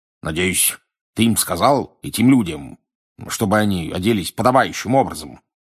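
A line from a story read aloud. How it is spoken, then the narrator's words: Grumbling. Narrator (Russian): проворчал он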